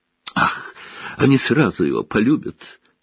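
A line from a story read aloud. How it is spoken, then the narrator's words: Exclamation. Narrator (Russian): воскликнула тетя Петунья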